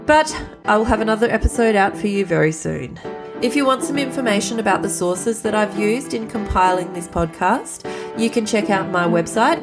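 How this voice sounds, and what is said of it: Congested voice from a cold. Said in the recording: “as you can probably hear from my voice, I am still now just recovering from a cold.”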